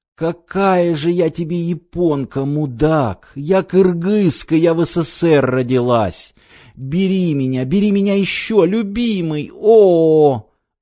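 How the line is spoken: Sobbing orgasmic moan. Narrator (Russian): Гейша вдруг всхлипнула и, уже выгибаясь в ликующей дуге оргазма, простонала

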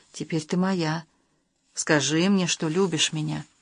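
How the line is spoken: Whispered into her ear. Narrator (Russian): Максим коснулся ее уха губами и прошептал

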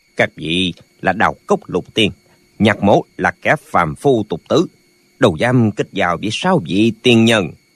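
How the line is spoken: Cold old man. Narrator (Vietnamese): Lão lạnh lùng nói

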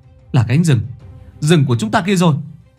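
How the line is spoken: Exhausted sudden cry. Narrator (Vietnamese): toàn thân kiệt sức, đột nhiên có người kêu lên

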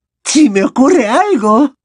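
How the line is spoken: Emotional exclamation. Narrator (Spanish): exclamó la profesora Trelawney con una voz cargada de emoción

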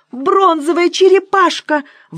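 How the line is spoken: Exclamation. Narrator (Russian): воскликнула Николета

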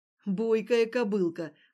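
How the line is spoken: Short laugh. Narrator (Russian): хохотнул Вадик

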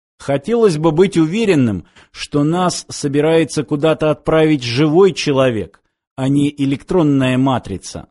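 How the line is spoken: Plain. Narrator (Russian): сказал снайпер

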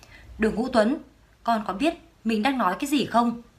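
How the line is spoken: Firm loud shout. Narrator (Vietnamese): Đường Tinh Khanh quả quyết quát lớn

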